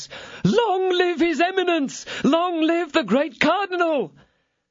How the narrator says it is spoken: the cardinal heard him in his enthusiasm crying out at the top of his voice

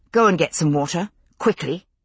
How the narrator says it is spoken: said, my voice level but urgent

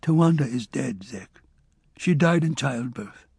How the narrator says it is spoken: he said hesitantly

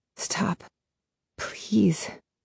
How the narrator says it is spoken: I whisper, not even breathing, not wanting to move my throat muscles even a millimeter

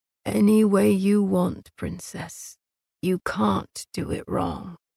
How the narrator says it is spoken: he whispered hoarsely

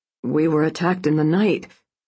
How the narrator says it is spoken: Braden said, his voice ragged and his face splotchy with emotion

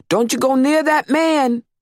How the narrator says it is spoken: our parents screamed behind us

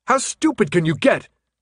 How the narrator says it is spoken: Thomas yelled

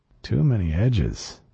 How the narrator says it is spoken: I muttered to myself

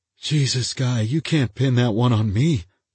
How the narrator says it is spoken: he said thickly

